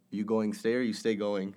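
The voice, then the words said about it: Hawaiian pidgin dialect. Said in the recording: “They have a thing called pidgin ... it's like a slang ... It's kind of like, what'd you call it, Cockney? ... Cockney is that type of accent.”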